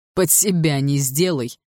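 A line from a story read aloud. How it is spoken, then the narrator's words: Laughing. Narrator (Russian): рассмеялся Барс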